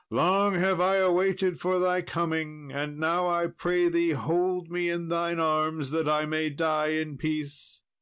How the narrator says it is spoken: the earl cried out

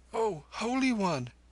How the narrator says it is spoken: he gasped

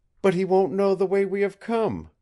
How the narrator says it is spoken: cried Nada, the faith in her voice answering his own

